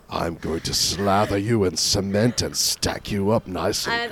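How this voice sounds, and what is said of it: Really deep put-on voice. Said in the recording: “having a cold ... do this really deep voice”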